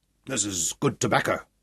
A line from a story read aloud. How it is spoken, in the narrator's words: he growled